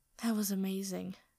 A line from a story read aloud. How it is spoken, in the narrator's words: Sokka says breathlessly